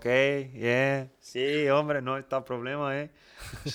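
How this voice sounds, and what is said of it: Put-on Mexican accent. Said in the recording (Romanian): “am început să vorbesc cu accent mexican”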